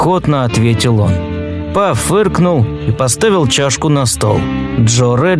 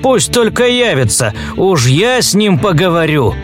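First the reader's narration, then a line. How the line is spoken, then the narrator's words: Grief-stricken exclamation. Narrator (Russian): сокрушенно воскликнул Редлин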